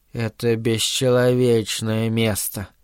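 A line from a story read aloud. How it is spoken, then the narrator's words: Deep guttural voice. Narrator (Russian): сказал он утробным голосом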